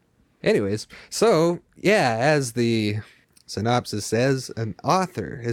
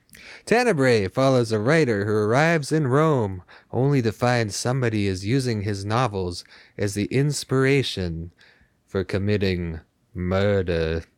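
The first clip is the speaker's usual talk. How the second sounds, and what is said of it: Imitates a cartoon character's voice. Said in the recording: “Nice accent. ... I was trying to do Sideshow Bob, but it probably didn't sound like Kelsey Grammer. ... Not quite, but still good.”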